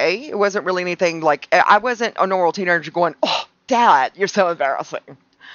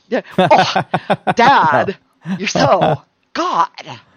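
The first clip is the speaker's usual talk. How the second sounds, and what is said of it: Imitates a nasal, deadpan movie character voice. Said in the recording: “like Napoleon Dynamite sort of”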